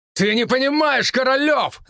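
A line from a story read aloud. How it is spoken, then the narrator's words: Shouting. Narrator (Russian): закричал Матвей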